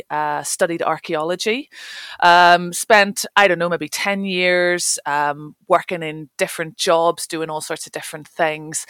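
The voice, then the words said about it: Northern Irish accent. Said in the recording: “you might be able to tell from my accent, I'm not local to the north of Scotland. I grew up in Northern Ireland”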